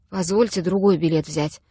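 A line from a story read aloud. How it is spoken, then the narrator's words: Muffled, unhappy voice. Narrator (Russian): глухо произносит несчастный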